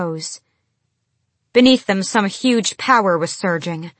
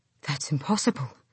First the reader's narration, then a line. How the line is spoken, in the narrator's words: Gavriel breathed